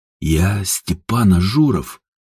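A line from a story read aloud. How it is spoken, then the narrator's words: Hoarse nervous whisper. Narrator (Russian): сипло прожептал Ажур, сглотнув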